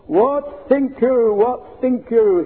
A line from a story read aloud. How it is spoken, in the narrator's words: he boomed